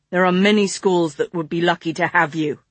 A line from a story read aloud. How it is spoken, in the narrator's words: he growled